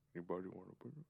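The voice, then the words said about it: Deep movie character voice. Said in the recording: “That was Fezzik. That was pretty good. That was a good Fezzik. ... it's just like a deep voice”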